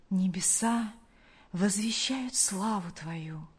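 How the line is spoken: Confident whisper. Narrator (Russian): прошептал он в уверенности, что был услышан тем, кто любит его

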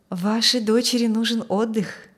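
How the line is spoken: Gentle nurse. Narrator (Russian): мягко сказала медсестра

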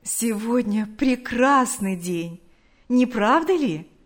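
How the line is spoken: Plain. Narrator (Russian): сказала одна

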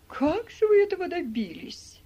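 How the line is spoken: Exclaiming. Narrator (Russian): воскликнула Мари

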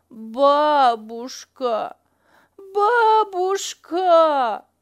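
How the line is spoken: Child wailing plaintively. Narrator (Russian): жалобно причитал малыш

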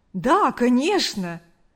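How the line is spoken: Joyful. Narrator (Russian): радостно ответил парень

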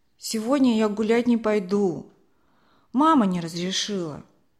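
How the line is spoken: Grumbling mutter. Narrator (Russian): пробурчал он

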